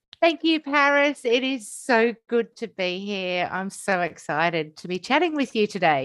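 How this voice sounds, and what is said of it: Australian accent. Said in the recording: “Australia on the Gold Coast ... if you guys can't hear her accent, how amazing and just so cute”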